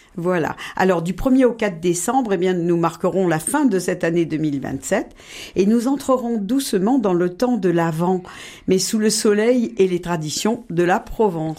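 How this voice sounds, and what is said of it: Provençal Marseille French accent. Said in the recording (French): “vous êtes provençale et marseillaise. Votre accent vous trahit”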